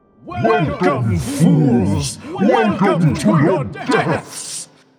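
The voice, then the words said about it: Booming villain character voice. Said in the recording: “you hear something in a booming voice.”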